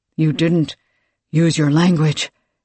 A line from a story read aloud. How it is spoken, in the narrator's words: he replied, panting